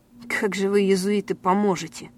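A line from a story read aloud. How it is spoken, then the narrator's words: Angry reply. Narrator (Russian): зло ответил невидимый собеседник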